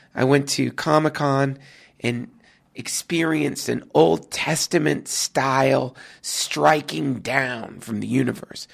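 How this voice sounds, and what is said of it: Wretched, ill-sounding voice. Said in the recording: “my voice sounds even more wretched than usual, it's because I came down with a case of what is known as nerd flu, or comic crud”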